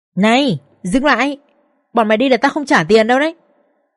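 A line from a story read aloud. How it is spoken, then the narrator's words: Screaming loudly. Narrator (Vietnamese): Bà Tuyết ở đấy hét toáng lên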